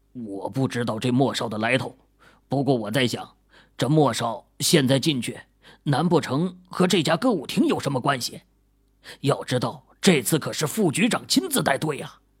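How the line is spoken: Policeman, low voice. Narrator (Chinese): 警察低声说

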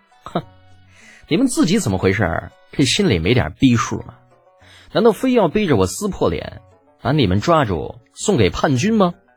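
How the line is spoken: Carefree laugh. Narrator (Chinese): 洒然一笑，道

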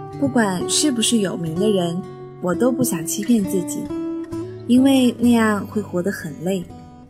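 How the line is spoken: Calm, flat reply. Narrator (Chinese): 他则淡淡的回应说

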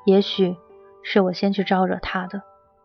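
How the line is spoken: Sighing. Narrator (Chinese): 钱嘉熙叹了口气

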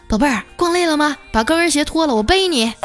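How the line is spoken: Husband, loud. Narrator (Chinese): 她老公大声的说

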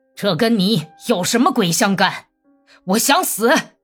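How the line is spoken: Furious roar. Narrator (Chinese): 利哈乔夫咆哮起来，脸色灰白

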